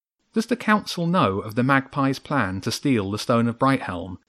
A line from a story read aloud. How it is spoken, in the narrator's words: said quickly, not sure of how long the birds would tolerate the gang's presence